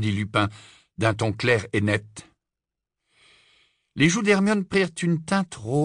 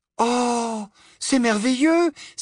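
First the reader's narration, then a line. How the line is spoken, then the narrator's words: Exclaiming. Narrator (French): s'écria Hermione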